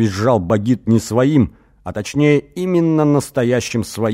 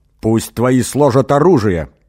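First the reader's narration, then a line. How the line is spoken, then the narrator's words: Growl. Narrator (Russian): прорычал Эгин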